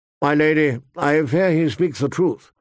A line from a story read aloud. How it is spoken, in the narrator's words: Sir Roderick said wearily